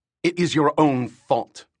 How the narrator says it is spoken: Rika snapped back

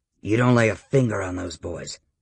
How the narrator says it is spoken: Victor said, his tone low and mean

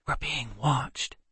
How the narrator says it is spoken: Kendra whispered

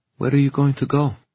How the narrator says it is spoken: she said finally, trying to keep her voice steady

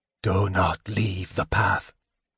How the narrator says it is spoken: Raistlin intoned

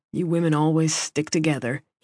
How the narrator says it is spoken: he grumbled

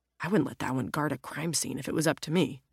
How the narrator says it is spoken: Jack mutters

